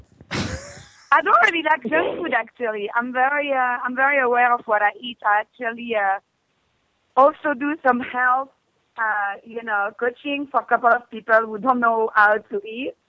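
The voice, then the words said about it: French accent. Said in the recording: “I think your accent is super sexy, too. I love that French accent.”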